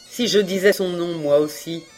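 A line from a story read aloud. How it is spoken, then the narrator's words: Defensive stammering. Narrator (French): Reine balbutia, se défendant mal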